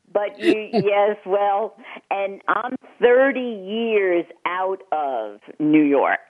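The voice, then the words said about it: New York accent. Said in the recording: “It used to be a lot thicker, my accent ... that's the area that my husband's from”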